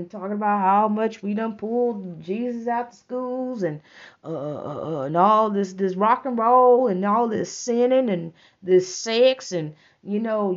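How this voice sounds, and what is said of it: Twangy small-town accent. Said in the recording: “You hear my accent coming out, my twang ... I'm talking like them”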